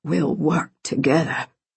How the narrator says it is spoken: he rasped

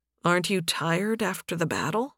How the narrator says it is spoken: Nathan asked gently

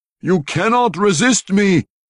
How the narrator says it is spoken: Kessel roared

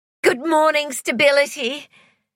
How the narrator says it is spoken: cried Joy emotionally

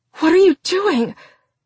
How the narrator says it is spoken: gasping, cried out

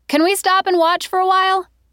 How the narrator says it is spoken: she shouted over a techno song's crescendo

